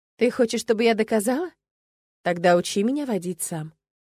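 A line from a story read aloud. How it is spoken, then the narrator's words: Calm. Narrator (Russian): спокойно сказала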